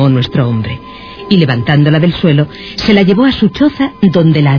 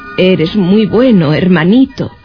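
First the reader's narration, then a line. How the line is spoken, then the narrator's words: Sighing. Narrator (Spanish): suspiró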